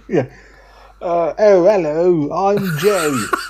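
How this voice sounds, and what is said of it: Cockney accent, imitates another person's voice. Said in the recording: “Give us a good Joe accent ... Perfect. Pitch ... Cockney ... perfect. ... Joe. ... I thought he was in the room.”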